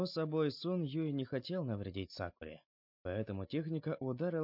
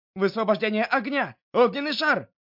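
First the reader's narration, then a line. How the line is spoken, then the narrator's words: Frightened young man shouting. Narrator (Russian): перепуганный парень без колебаний выкрикнул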